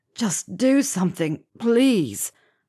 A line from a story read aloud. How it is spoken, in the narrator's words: Ron groaned